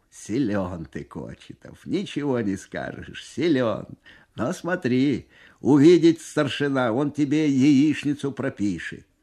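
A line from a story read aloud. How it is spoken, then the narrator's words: Amused after laughing. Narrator (Russian): Насмеявшись всласть, командир взвода лейтенант Бесов говорит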